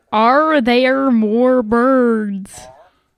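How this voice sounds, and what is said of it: Unconvincing attempt at American accent. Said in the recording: “I'm pulling up a video of how to speak in an American accent. ... You've never sounded less American than you did when you were trying that.”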